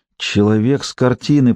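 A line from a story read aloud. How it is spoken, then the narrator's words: Whisper. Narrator (Russian): прошептала она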